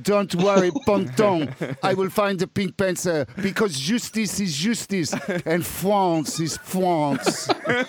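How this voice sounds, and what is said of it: Mock French accent, Inspector Clouseau. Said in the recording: “I'm trying to speak like Inspector Caluso from the Pink Panther”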